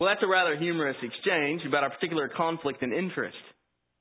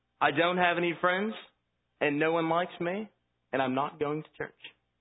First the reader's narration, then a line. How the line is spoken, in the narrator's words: He firmly responded